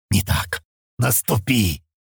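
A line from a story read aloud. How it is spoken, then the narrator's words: Hateful rough growl. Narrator (Russian): прорычал грубый Диан, с ненавистью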